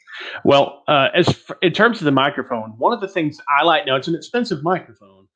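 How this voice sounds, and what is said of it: Polished radio announcer voice. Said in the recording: “Your radio voice is amazing.”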